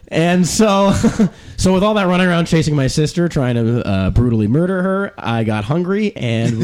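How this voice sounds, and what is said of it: Usual voice. Nothing is said of it.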